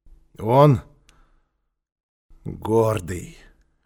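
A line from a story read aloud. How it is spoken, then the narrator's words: Hoarse repetition. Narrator (Russian): хрипло повторил Квакин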